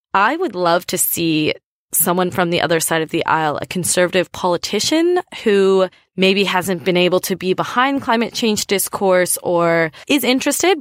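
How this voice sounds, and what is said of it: American accent. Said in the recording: “I'm from the United States ... you can probably tell by my accent.”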